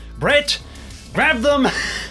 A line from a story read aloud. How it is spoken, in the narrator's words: Ernest shouts out